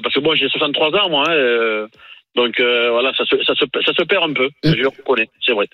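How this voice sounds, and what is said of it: Southern French accent. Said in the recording (French): “nous, on a l'accent du Sud, on n'a pas l'accent de Marseille”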